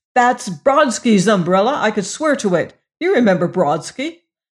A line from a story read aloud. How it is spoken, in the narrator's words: ejaculated the passenger